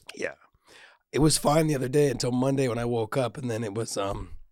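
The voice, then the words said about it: Hoarse, nearly gone voice. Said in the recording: “has got a sultry sounding voice for you today ... My voice is so gone ... you have a stuffy nose, though, as well ... my throat is gone ... I sound horrible”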